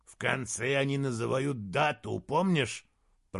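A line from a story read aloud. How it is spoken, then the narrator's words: Grumbling. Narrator (Russian): проворчал Моргенес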